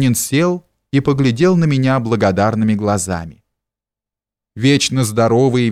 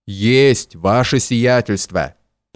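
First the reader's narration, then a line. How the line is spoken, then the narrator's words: Deep bass voice. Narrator (Russian): пробасил все время до этого молчавший одноглазый Кузьма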